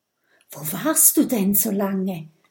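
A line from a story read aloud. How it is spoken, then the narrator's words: Whisper. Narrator (German): flüstert Mathilda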